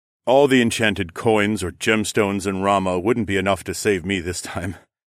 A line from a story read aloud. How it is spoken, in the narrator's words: the king chuckled wearily